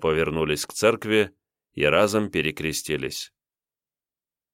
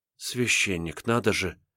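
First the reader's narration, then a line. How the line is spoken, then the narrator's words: Girl whispering to herself. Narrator (Russian): шептала про себя девушка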